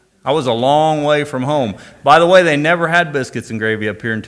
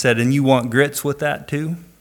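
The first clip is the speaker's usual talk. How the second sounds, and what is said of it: Exaggerated southern accent. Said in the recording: “She put on her most pathetic southern accent”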